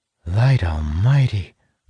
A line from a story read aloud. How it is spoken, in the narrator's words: Zara gasps